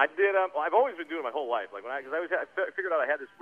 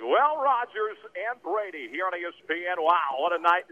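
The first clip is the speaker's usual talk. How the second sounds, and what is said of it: Joe Buck-style play-by-play announcer voice. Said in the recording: “weird voice. It sounded just like Joe Buck ... doing play-by-play”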